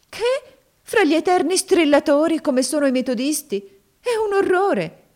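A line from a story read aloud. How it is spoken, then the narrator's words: Exclaiming. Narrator (Italian): esclamò Maria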